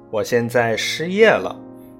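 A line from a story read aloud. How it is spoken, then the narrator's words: Loud and beaming. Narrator (Chinese): 他笑容满面地大声说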